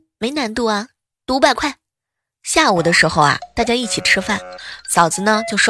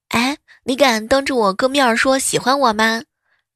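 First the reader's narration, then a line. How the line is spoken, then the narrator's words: Joking, teasing. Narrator (Chinese): 我嫂子 开玩笑说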